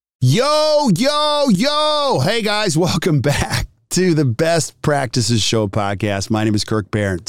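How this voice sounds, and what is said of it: Excited yelling. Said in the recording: “Sorry for yelling. I'm just so excited.”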